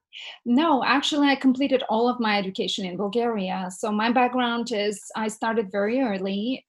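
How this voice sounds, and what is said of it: Bulgarian accent. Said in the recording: “you have this beautiful accent ... I'm originally from Bulgaria ... my accent never went away”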